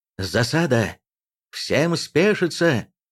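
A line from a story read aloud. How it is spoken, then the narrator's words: Shouting. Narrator (Russian): закричал он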